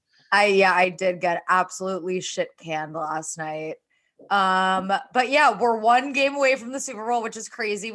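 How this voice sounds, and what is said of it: Hoarse, strained voice. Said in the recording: “I lost my voice.”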